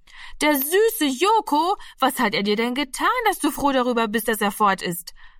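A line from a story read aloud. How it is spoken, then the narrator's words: Call. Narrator (German): rief Martina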